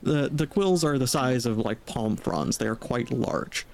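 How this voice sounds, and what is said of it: Switches to a narrator voice. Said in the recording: “I should switch to narrator voice for this.”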